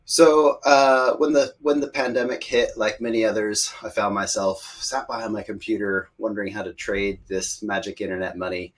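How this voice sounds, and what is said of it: American accent. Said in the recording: “As you can tell by my accent, I'm American”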